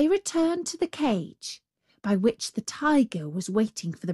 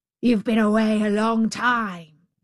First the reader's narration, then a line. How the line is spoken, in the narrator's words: growled the savage beast